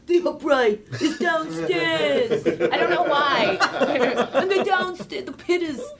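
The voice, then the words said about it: Imitates another person's voice. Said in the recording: “I'll do my grandpa ... I do that voice too”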